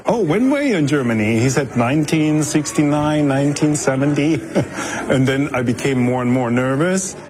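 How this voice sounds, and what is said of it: German accent. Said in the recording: “Where is your accent for? I said, from Germany.”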